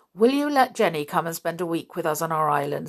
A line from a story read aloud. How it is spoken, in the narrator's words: said Julian